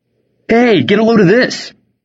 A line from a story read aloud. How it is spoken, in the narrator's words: Toothless shouted